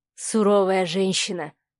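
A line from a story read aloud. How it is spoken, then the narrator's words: Sighing. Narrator (Russian): вздохнул Савелий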